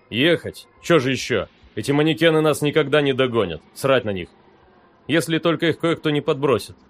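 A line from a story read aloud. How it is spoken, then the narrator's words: Snorted, miller. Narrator (Russian): хмыкнул мельник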